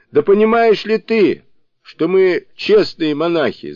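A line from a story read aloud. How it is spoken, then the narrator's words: Yelling. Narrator (Russian): заорал он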